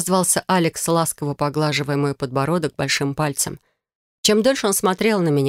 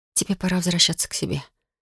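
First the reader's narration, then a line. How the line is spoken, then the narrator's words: Whisper. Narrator (Russian): прошептала я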